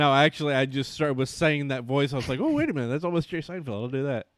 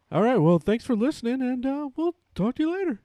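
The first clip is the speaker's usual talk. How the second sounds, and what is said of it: Bad impression of another person's voice. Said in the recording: “bad impression ... a bad Jerry Seinfeld”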